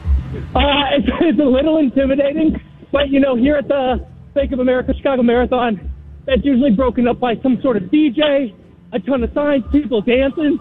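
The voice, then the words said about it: Slightly out of breath. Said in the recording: “he's out of breath a little bit”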